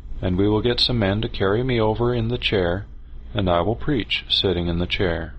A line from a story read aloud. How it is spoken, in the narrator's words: said calmly